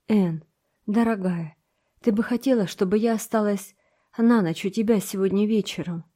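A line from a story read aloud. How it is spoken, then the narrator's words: Quiet. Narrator (Russian): Диана тихо сказала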